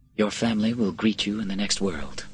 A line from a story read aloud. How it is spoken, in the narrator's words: Quintus said quietly